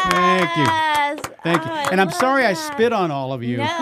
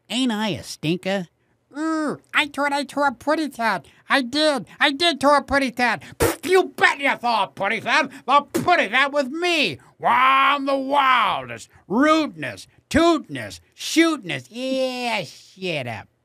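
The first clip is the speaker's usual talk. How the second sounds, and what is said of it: Cartoon character voices. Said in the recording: “character voice artists is you don't hold back”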